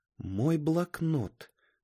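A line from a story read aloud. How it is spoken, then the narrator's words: Whisper. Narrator (Russian): прошептала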